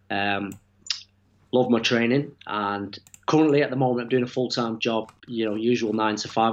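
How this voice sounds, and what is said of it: Manchester English accent. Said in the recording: “I have ... from Manchester. You're going to hear the accent very shortly.”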